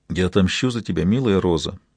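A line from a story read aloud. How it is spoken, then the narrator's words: Quiet. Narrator (Russian): сказал он тихо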